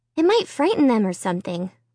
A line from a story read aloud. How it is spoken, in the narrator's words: Margot said